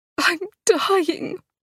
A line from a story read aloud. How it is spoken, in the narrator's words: Charlotte wailed